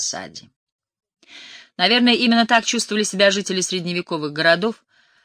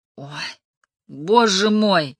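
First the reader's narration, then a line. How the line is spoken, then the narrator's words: Moaning. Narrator (Russian): простонала Джан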